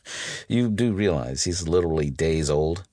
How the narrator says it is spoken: I laughed, slightly confused

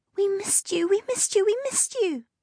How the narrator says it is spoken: Beanie shrieked, jumping up and down

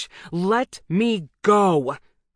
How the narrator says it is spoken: I shout

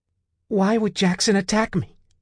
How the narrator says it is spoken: she cried

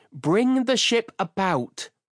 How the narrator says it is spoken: Sylvia cried out

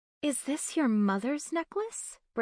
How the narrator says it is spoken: Bryn asked, her voice soft with wonder

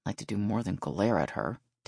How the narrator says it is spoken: Dale muttered

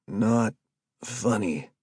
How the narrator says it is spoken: Stuart moaned from the back

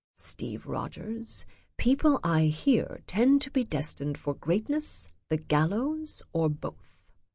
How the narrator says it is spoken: Leaning forward, whispers

